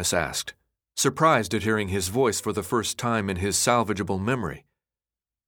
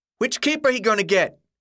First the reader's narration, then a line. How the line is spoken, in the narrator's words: shouted from the back of the crowd